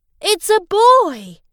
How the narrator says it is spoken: his dad cried

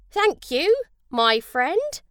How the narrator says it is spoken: said Jim

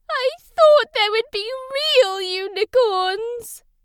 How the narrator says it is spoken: Naz cried

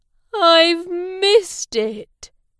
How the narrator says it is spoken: Dave said sadly

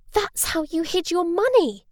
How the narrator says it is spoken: Stella gasped

